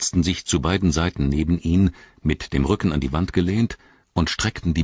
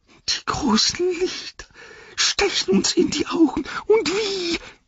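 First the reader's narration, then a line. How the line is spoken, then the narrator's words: Whining lament. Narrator (German): jammerte Gollum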